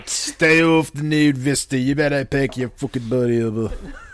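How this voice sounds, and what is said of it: Good put-on English accent. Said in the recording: “that's my English accent... That was really good. Your accent is super on point.”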